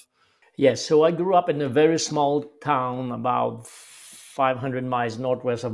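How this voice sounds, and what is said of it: French-Canadian accent. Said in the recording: “people can probably tell from your accent, you're French-Canadian, grew up in Quebec.”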